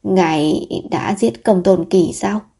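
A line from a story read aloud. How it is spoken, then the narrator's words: Low-voiced question. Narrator (Vietnamese): Hứa Lão Bá thấp giọng hỏi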